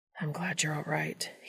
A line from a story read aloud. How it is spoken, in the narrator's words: he murmured